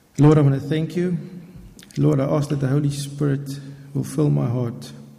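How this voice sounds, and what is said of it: Non-native English accent. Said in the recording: “English is my second language. Scottish is my third language. ... excuse my accent if you don't understand”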